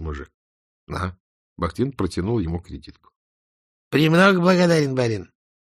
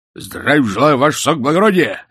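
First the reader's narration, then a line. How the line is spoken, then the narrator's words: Barked. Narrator (Russian): рявкнул он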